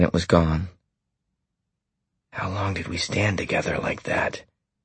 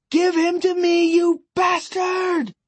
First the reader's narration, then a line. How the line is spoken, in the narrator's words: distant and full of terror, a woman shriek